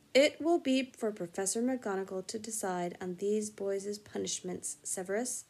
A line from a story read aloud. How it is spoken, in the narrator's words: said Dumbledore calmly